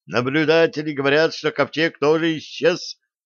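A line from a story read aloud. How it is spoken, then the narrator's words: Joyful. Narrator (Russian): радостно сказал Тритон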